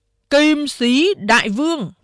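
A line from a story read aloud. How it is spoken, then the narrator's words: Loud announcement. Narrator (Vietnamese): Đại Hổ cao giọng sướng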